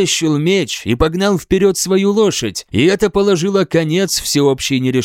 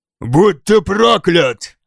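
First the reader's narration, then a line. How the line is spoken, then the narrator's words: Growled. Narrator (Russian): прорычал один из людей Алтхельма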